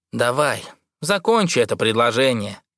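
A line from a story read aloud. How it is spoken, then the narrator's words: Dry suggestion. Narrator (Russian): сухо предлагает Райдер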